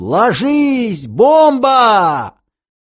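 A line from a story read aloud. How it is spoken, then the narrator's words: Shouted mid-leap. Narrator (Russian): Второе слово он орал уже в полете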